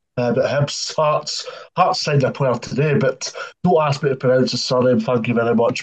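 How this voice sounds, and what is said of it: Doric Scottish accent. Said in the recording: “I've got obviously a Doric accent”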